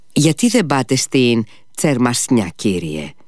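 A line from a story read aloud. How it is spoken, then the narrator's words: Familiar, smiling. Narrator (Greek): είπε ο Σμερνιακόφ, και ξαφνικά σήκωσε επάνω του τα μικρά του μάτια και χαμογέλασε με οικειότητα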